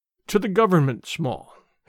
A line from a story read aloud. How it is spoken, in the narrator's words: he stammered